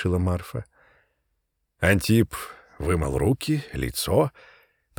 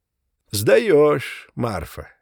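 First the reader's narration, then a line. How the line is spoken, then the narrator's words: Cheerful speech. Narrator (Russian): весело сказал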